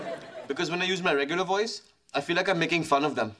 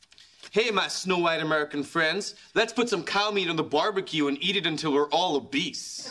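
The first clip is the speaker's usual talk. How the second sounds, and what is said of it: Bad put-on American accent. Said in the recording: “your American accent is terrible ... I think I'm talking in an American accent, but it really sounds like I'm wearing a set of giant dentures”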